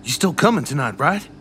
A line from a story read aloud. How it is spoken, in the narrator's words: I sigh through my teeth